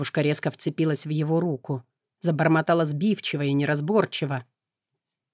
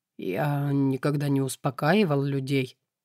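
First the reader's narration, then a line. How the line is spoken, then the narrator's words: Hoarse. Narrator (Russian): вымолвил сипло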